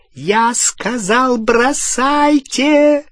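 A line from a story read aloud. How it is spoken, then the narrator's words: Shrieking. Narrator (Russian): провизжала Беллатриса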